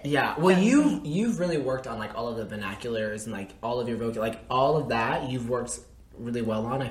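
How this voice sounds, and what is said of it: Southern American accent. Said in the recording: “You're more Southern than me.”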